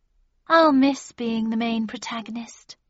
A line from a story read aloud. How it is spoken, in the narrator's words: she said wistfully